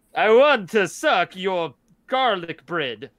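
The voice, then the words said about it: Dracula-like Italian accent. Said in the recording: “why does your Italian accent sound like Count Dracula? ... Transylvanian in there ... the Canadian mixes in with the Italian and you get Transylvanian”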